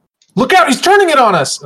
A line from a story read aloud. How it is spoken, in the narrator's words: shout